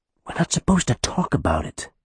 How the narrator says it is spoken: Benny hissed at Renna

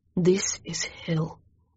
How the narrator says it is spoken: He gritted his teeth and hissed

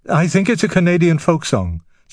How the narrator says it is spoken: said Frère Simon, his voice slightly higher than usual

